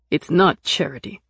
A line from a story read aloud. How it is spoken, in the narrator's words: he said sharply